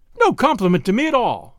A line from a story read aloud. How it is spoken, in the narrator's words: cried the girl indignantly